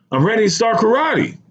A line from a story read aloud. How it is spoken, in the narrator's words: barked, as if I should have already known